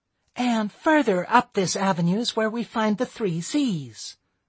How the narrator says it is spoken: came a chirpy female voice

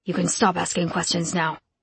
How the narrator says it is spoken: Rum grumbled

